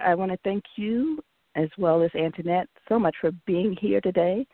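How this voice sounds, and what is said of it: Hoarse, fading voice. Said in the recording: “sorry you're losing your voice.”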